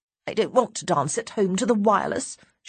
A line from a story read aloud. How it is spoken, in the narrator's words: says scornfully